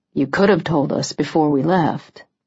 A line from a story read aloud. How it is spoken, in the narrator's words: he said gently